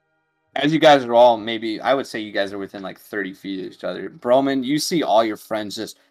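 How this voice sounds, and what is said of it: Usual voice. Nothing is said of it.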